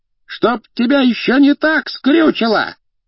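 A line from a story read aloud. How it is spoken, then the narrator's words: Wailing through a wall. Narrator (Russian): вопила из-за стены кухарка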